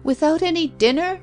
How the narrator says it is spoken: she shrieked

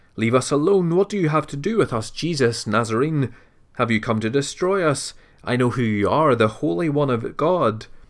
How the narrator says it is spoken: a man with an unclean demonic spirit who cried out with a loud voice

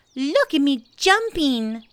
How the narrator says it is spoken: squeaked Roo

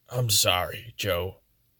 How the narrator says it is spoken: he said, his voice somber

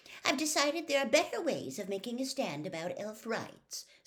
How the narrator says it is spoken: said Hermione haughtily

